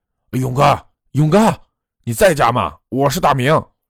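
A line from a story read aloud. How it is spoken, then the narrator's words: Shouting while knocking. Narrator (Chinese): 一边拍门一边喊着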